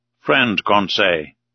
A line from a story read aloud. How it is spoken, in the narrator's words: said Ned gravely